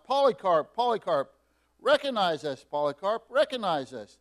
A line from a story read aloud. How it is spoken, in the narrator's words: Marcion cried out